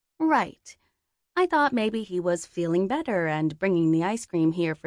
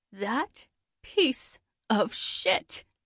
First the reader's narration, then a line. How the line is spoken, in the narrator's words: she growled